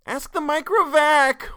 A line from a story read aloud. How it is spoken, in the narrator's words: wailed Jared at one